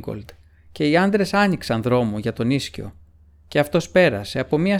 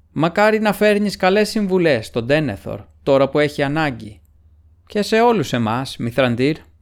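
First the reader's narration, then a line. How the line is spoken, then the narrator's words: Shouted. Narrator (Greek): φώναξε ο Ίγκολντ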